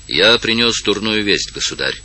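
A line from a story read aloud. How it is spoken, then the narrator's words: Cold. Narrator (Russian): сказал холодно маршал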